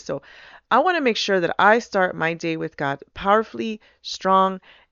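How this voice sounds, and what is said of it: Strange, allergy-affected voice. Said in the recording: “my voice is a little strange again... this time it's a little more strange, but it's because I have my allergic season”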